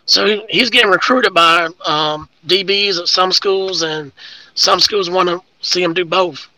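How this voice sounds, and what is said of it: Hoarse, fading voice. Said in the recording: “my voice is going out, because I was yelling at him a lot last night”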